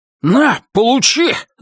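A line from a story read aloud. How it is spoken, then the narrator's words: Yelled. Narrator (Russian): заорал Бастер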